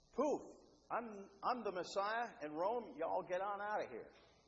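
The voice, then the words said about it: Put-on Southern American accent. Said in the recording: “With a southern accent, too.”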